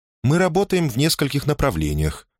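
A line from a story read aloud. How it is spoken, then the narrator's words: Calm explanation. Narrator (Russian): спокойно объяснила Делла Плейн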